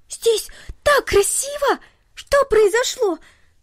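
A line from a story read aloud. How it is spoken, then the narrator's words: Delighted girl exclaiming. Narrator (Russian): воскликнула в восторге девочка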